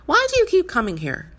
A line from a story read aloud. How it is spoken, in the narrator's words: she asked Frances loudly, and Frances could tell from the violence with which she was scolded